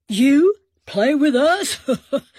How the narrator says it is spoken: Big Earl laughed

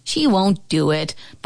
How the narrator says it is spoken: Bobby Eklund finally scoffed

